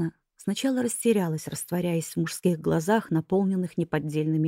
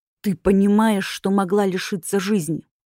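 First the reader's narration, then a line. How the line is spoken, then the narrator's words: Growling male voice. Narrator (Russian): В мужском голосе слышались рычащие нотки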